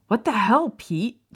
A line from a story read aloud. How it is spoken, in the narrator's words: James snapped